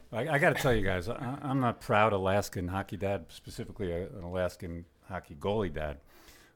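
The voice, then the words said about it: Brooklyn accent, loud voice. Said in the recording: “you're from Brooklyn ... Still got the accent ... and the volume”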